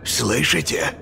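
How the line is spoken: Mechanic's whisper. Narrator (Russian): шепотом проговорил моторист, оборачиваясь

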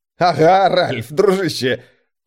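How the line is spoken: Choking back laughter. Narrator (Russian): Курт давился от еле сдерживаемого хохота

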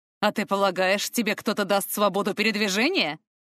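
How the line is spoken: Scoffing grunt. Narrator (Russian): хмыкнул рептилоид

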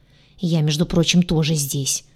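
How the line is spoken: Grumble. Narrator (Russian): проворчал Гадюша

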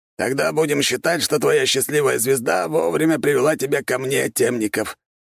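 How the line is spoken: Hoarse rasp. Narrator (Russian): прохрипел наставник

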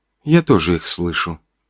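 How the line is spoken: Quiet. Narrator (Russian): тихо сказала Уна

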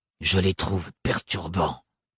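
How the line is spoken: Grumbled. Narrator (French): grommela-t-il

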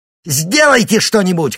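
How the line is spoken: Shouted. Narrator (Russian): крикнула им Вельт

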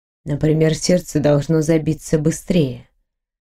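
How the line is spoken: Silky voice. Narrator (Russian): шелковым голосом ответил он

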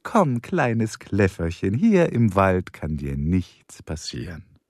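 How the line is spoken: Cooing. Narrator (German): säuselte

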